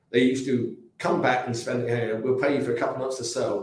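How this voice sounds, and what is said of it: English British accent. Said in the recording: “with your nice English accent ... They love an English accent. They just love a British accent”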